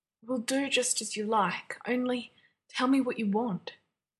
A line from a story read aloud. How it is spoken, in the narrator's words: John said, his voice raspy